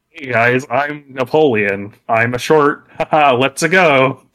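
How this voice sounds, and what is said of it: Chris Pratt impression. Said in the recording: “That's my Chris Pratt impression.”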